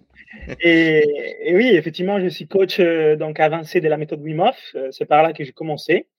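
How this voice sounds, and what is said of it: Italian accent speaking French. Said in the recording (French): “comme vous entendez de mon accent, je suis toulousain, ah non non, italien.”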